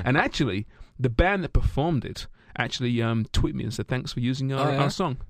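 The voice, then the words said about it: Australian-sounding colonial accent. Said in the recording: “you and your colonial accent ... People still can't figure out what part of Australia you guys are from.”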